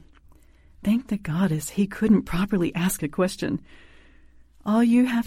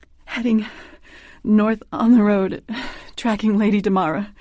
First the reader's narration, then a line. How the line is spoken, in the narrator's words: I gasped